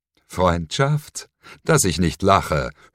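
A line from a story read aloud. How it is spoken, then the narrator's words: Mocking, diabolical laugh. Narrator (German): höhnte die Stimme, gefolgt von einem Lachen, das diabolischer nicht hätte sein können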